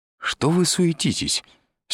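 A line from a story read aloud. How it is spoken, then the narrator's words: Cheerful. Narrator (Russian): сказал Изя весело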